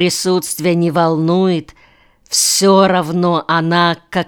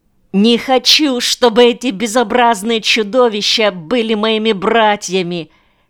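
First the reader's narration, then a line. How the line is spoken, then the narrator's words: Hysterical child's scream. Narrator (Russian): кричал мальчишка в истерике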